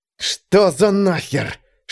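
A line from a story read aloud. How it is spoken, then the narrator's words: Hiss through teeth. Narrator (Russian): шиплю я сквозь зубы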